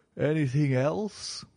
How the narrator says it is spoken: asked Holmes, yawning

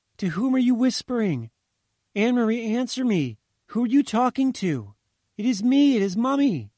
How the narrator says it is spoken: the mother shouted, bewildered

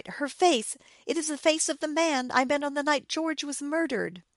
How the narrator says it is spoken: she cried, terrified

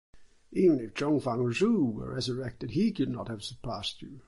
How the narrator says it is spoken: exclaimed the astonished commissioner

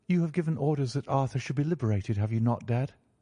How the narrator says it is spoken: she asked

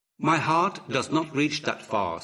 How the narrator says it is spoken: said Horus

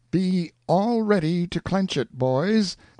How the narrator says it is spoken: cried out Pathfinder

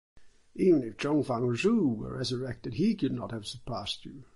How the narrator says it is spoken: exclaimed the astonished commissioner

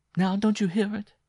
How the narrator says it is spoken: she cried with an inarticulate gasp

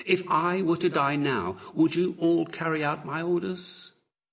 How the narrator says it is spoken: cried Horus

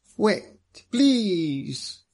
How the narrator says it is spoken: he cried

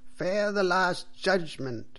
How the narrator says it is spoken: cried the priest loudly and angrily

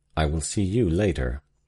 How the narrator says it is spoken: he said, coldly but significantly

